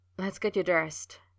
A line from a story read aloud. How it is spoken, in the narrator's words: he said, his voice low and urgent